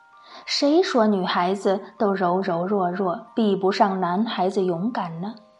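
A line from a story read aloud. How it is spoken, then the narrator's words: Admiring praise. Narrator (Chinese): 但凡听到这个故事的人，没有一个不竖起大拇指赞叹的说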